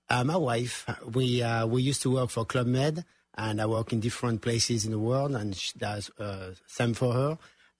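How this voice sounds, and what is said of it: Strong French accent. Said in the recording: “You got a strong accent. ... I'm from France.”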